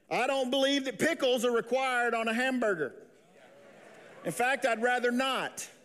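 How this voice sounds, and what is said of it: Regional accent. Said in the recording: “I'm the one with the accent ... all y'all”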